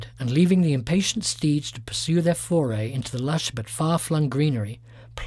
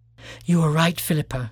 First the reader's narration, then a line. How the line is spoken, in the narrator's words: panted